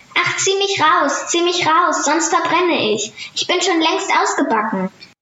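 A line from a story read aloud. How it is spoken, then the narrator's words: Bread calling out. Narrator (German): das Brot aber rief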